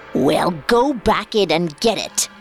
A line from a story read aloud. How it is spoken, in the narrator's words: The witch snapped